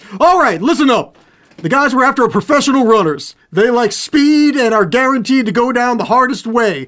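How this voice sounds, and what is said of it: Impression of The Rock as Hobbs. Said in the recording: “my Hobbs impression ... how does The Rock sound?”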